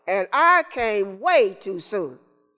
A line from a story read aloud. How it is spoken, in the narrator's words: Calvin from behind John and slightly to the left say in a louder, more declarative voice